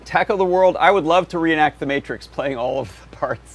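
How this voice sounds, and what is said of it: Voice affected by a cold. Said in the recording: “as you can probably hear from my voice, I had a little cold”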